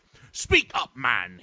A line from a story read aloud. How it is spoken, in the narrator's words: he exclaimed sharply